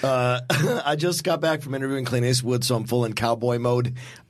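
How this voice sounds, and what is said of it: Hoarse, strained voice. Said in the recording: “is a little bit hoarse. ... He's a little under the weather ... my throat is terrible”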